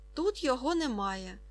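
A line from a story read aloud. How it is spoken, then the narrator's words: Calm statement. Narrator (Ukrainian): спокійно сказала Фріда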